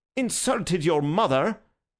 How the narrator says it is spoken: exclaimed the gentleman incredulously

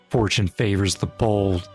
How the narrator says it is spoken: Colin smirked and whispered

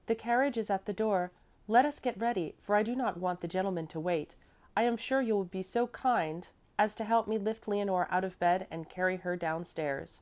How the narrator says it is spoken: Miss Remke called out on entering

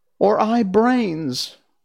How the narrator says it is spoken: wailed the Scarecrow, wiping tears from his eyes

